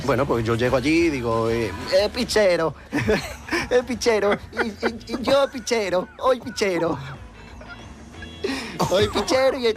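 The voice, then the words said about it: Sing-song accented speech. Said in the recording (Spanish): “este acento ... es un poco cantante cuando hablas ... Es como un cantante antiguo”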